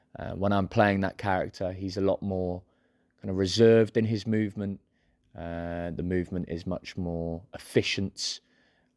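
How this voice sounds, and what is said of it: English Midlands accent. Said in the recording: “you can tell from my accent now, I'm a Midlands boy”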